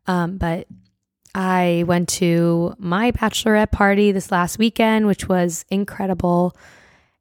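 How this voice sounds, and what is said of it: Nearly lost, hoarse voice. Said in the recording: “my voice is pretty much gone right now. It's almost gone.”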